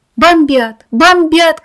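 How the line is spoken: Shouting from the street. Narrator (Russian): кричал кто-то на улице

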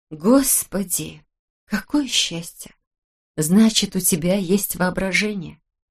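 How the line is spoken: Near whisper. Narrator (Russian): сказала она почти шепотом

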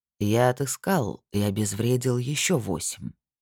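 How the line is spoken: Quiet. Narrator (Russian): тихо сказала Эйдан

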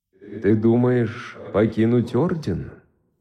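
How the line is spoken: Gentle question after pause. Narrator (Russian): Выдержав паузу, ласково спросил он

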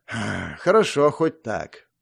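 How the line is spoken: Sighing reply. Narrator (Russian): вздохнув, ответил Сурьё

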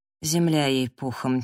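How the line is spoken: Quiet. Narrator (Russian): тихо сказал Сэм

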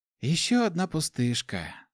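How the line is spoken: Sigh. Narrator (Russian): вздохнула Амелия

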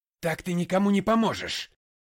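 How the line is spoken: Shout. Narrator (Russian): крикнул я

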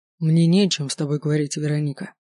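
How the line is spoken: Cold, even voice. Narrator (Russian): говорит Олег холодным и ровным голосом

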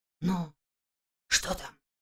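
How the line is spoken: Whispered question. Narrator (Russian): почему-то шепотом спросил Иван

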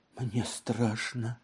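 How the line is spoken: Unaware frightened whisper. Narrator (Russian): Женевьева не сознавала, что говорила, но тем не менее она шептала

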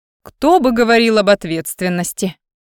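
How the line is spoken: Muttered grumble, young woman. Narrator (Russian): проворчала под нос девушка

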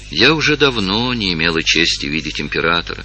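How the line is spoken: Sad speech. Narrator (Russian): печально сказала Евгения

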